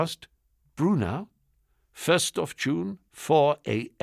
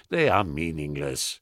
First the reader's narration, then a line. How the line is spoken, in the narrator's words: he replied, in that faintly contemptuous tone of voice scientists use with dumb laymen